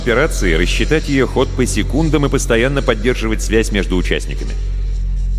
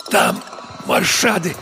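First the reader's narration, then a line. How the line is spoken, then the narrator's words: Wheezing rasp. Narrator (Russian): прохрипела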